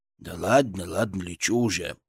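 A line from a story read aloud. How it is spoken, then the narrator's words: Grumbled. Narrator (Russian): проворчал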